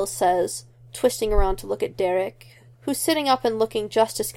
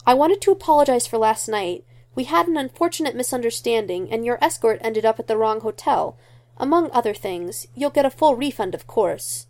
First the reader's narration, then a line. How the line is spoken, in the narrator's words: Lydia says urgently